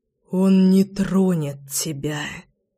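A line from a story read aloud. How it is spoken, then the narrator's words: Beast's hoarse rasp. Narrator (Russian): прохрипел зверь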